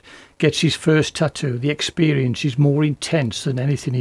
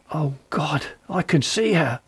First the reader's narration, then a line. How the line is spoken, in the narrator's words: The man gasped